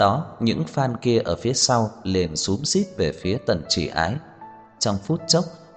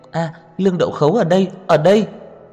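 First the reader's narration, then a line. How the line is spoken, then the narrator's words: Excited girl shouting. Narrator (Vietnamese): Nữ sinh kia kích động hét lên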